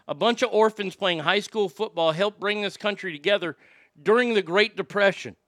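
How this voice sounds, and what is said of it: Emotional voice, cracking slightly. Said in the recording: “you can kind of hear it in my voice right now as it's cracking a little bit”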